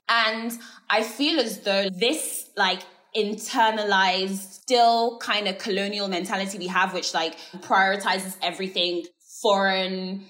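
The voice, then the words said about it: British accent. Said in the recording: “British accent”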